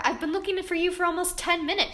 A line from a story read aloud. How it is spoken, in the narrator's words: she exclaimed happily